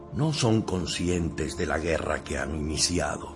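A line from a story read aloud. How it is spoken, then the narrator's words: Muttered to himself. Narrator (Spanish): murmuró para sus adentros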